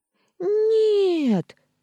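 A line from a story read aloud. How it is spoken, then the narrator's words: Screaming. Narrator (Russian): завопила Черри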